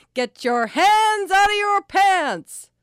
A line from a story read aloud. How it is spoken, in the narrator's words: She loved yelling the sentence and yelled it all the time